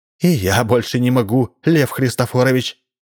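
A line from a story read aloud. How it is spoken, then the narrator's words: Exclaimed. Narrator (Russian): тоже воскликнула она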